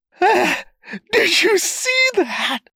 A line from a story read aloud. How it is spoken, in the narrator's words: He wheezed and went on laughing and laughing